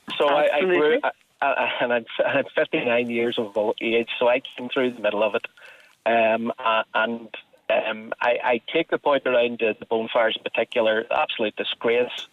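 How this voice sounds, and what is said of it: North Belfast accent. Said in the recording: “come from North Belfast, as my accent probably gives me away”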